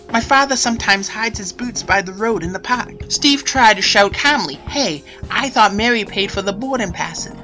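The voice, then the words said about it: Regional New England accent. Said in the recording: “here's an accent that might be familiar ... that accent is fading”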